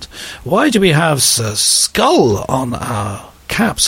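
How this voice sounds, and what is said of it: Put-on German accent. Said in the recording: “this is my brilliant German accent”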